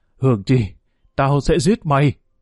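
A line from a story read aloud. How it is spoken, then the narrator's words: Tearful frenzied scream. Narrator (Vietnamese): Hồng dấn nước mắt, Hồng gào lên như điên dại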